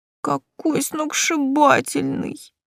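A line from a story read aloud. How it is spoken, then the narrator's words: Moaning. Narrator (Russian): простонала Настя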